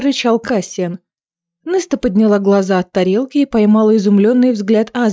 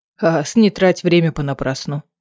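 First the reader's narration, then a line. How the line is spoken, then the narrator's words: Muttered. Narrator (Russian): пробормотал Кассиан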